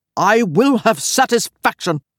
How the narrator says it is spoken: Hugh growled

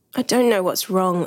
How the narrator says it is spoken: I told him miserably

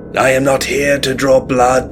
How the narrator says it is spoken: shouted, loud enough for the neighboring reporters to hear

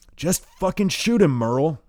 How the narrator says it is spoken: shouts Hayduke, impatiently

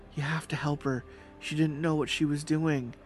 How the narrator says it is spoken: pleaded

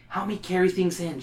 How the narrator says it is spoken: whispers

